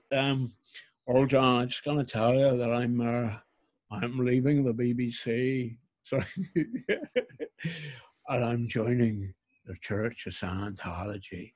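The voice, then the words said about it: Bad put-on Northern Irish accent. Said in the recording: “I'm going to do a bad Northern Irish accent.”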